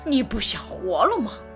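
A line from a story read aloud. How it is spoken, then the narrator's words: Roaring male bear. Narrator (Chinese): 公熊咆哮起来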